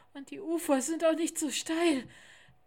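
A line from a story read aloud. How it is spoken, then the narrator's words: Panting. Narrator (German): sagte Lars keuchend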